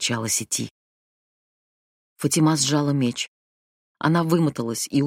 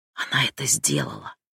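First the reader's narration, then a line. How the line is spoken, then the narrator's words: Whisper. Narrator (Russian): прошептала сети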